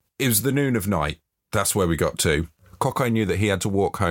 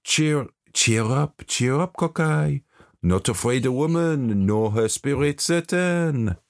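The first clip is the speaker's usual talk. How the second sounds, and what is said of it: Put-on French accent. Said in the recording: “That was a French accent... No, it's beautiful, beautiful.”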